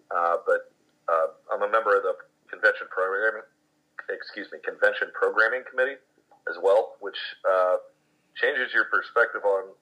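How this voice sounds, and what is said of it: Rough, worn-out voice. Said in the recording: “if you can't tell from my voice, I had an amazing time. ... this is definitely the roughest I've sounded after a convention in a while”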